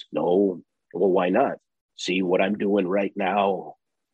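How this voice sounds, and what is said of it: Imitates another person's voice. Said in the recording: “in that Harley voice”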